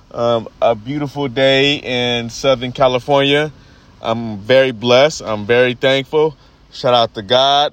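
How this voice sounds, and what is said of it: Voice sounds a little strange. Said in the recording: “Sorry if my voice sounds a little strange. Been dealing with allergies the last couple days.”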